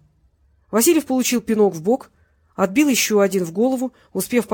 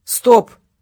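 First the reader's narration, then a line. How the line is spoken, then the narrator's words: Barked by teacher. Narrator (Russian): гаркнул сенсей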